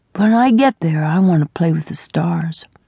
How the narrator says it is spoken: he said sleepily

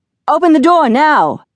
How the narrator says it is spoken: the police officer yelled

